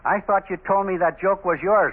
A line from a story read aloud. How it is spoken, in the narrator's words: I shouted at him